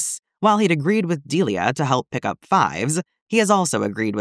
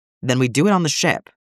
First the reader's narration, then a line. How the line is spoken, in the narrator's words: Delia says firmly